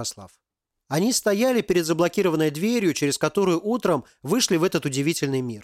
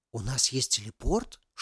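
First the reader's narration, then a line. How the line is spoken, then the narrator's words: Whispered question. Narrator (Russian): шепотом спросила Алиса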